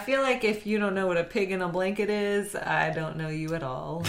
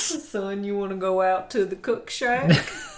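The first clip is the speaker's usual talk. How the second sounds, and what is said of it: Put-on Louisiana Southern accent. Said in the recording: “I'm allowed to make fun of that accent, ... Because I'm from Louisiana.”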